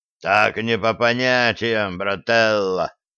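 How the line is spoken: Offended boom. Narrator (Russian): обиженно прогудел зэк Огромов

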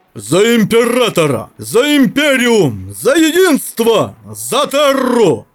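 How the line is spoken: Massive roaring crowd. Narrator (Russian): взревел в ответ миллион голосов людей и транслюдей, заглушая орудийный грохот

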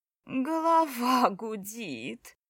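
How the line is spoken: Whimpering. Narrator (Russian): хныкала Настя

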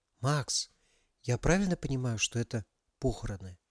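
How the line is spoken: Whisper in ear. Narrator (Russian): прошептала Алиса на ухо Макса

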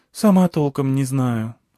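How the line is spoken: Sighing. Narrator (Russian): вздохнула Алька

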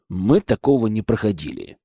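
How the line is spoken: Muttered. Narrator (Russian): буркнул

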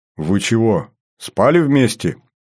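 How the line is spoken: Short laugh. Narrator (Russian): хохотнул я

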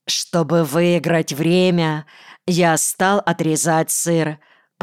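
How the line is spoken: Plain. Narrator (Russian): ответил

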